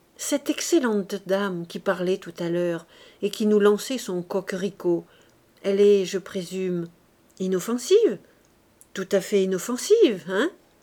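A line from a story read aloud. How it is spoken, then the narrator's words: Low voice. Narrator (French): en lui parlant à voix basse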